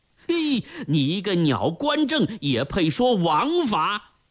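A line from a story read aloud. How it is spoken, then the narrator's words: Furious roaring. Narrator (Chinese): 张大郎像一头咆哮的狮子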